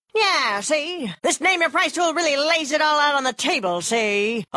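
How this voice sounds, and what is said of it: 1930s gangster voice. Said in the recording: “my impression of a 1930s gangster”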